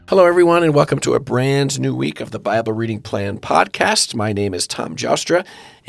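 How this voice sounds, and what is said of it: Hoarse, weak, gravelly voice. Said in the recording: “I will be your hoarsely voiced host this week ... my voice is weak ... this weak voice is just still lingering ... gravelly ... voice”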